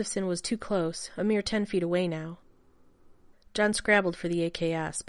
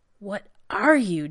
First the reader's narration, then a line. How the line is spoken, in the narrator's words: gasped